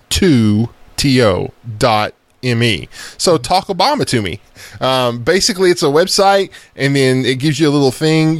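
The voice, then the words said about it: Southern accent. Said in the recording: “Your southern accent made that sound like Taco Obama.”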